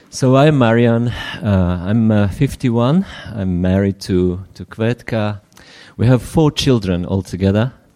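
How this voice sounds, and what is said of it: Slight British accent in English. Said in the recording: “Maybe there's a bit of a British accent in my English.”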